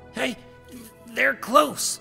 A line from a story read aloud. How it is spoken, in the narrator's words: Vaspin stammered